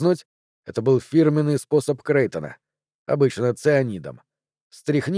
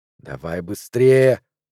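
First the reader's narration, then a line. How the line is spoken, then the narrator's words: Gruff mutter. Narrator (Russian): буркнул Сакамото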